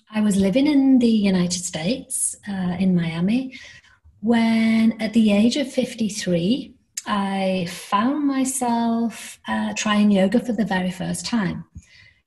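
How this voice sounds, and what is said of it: British accent. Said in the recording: “I am British, as you can tell by my accent.”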